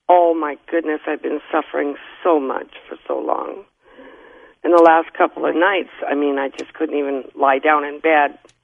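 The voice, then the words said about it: Hoarse voice. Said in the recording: “my voice is so hoarse”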